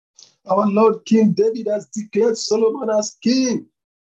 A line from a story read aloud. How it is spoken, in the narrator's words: Jonathan shouted